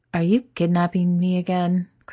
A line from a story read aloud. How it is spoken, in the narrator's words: Chris asks fuzzily